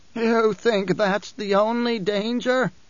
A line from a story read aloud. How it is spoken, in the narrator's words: the Reverend Mother demanded, voice wheezing